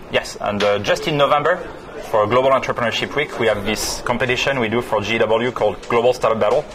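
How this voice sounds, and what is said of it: French accent. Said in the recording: “what kind of accent do you have? French? ... I'm French. Yes. ... So French. ... I'm just French by accent.”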